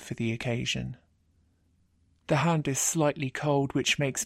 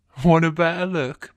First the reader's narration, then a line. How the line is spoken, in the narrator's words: my guy says, chuckling